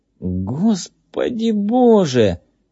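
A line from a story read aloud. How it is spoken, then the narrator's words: Exclaimed in strangled voice. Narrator (Russian): воскликнул кто-то сдавленным голосом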